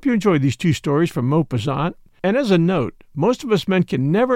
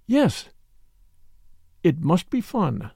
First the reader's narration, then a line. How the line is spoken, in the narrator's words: She murmured in a dreamy voice